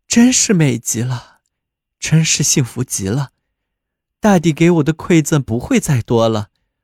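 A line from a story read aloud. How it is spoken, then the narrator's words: Two voices, admiring. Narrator (Chinese): 两人感叹道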